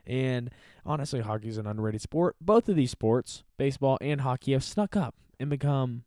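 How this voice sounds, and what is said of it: Usual voice. Nothing is said of it.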